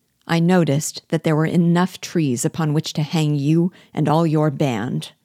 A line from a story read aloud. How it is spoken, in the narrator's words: I replied coldly